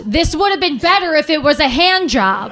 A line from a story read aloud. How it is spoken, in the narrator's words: he screamed